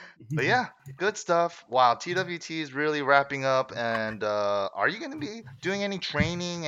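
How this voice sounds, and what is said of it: Usual voice. Nothing is said of it.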